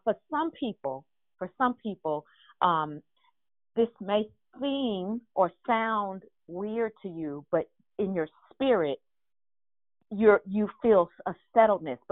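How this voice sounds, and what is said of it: Loud, excited, near-yelling speech. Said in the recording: “I feel like I'm yelling. I probably am. I'm just a little hypey right now.”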